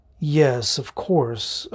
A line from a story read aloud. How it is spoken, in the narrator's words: murmur, swallowing back my frustration